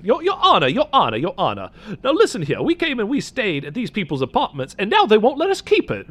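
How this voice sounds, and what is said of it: Put-on Southern US accent. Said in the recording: “Let me do like a southern accent.”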